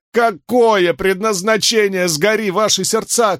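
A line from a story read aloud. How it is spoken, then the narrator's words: Shouting. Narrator (Russian): кричал он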